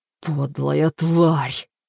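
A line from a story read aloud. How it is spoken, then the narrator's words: Mouthed whisper. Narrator (Russian): прошептал Боб одними губами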